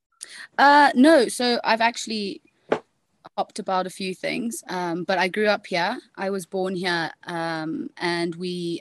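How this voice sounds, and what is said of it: Distinctive regional accent. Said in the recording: “one of the coolest accents of people we've had in the podcast. It's a fantastic accent.”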